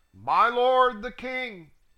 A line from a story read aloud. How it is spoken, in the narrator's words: cried out